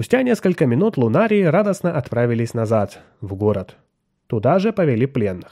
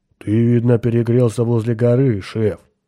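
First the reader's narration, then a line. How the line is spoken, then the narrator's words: Sympathetic mutter. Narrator (Russian): сочувственно пробурчал Грег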